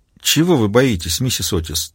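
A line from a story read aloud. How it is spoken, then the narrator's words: Quiet question. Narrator (Russian): тихо спросила Маура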